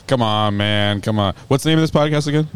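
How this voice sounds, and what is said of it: Put-on stereotyped Black American voice. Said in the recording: “give him your black voice”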